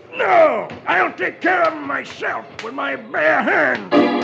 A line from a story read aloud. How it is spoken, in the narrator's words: Ballast snarls